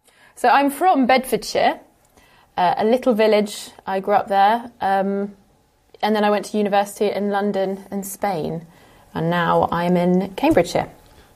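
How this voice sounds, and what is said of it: Modern RP with estuary hints. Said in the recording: “I speak, from what I can tell, with the modern RP accent, the modern received pronunciation accent, but there are definite hints of estuary English in there as well”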